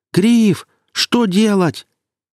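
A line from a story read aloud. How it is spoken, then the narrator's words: Shouting. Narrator (Russian): Ява кричал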